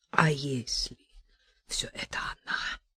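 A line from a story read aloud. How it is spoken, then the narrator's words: Hoarse wheeze. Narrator (Russian): просипел Степан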